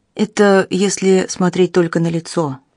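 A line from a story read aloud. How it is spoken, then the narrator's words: Grim. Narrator (Russian): мрачно произнес сержант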